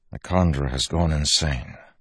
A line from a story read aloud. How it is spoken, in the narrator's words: Wax said softly